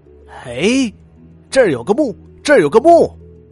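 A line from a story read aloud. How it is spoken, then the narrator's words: Excited shout. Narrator (Chinese): 他兴奋的大叫起来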